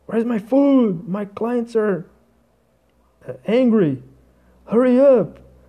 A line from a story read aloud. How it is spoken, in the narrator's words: someone like a server like crazy and screaming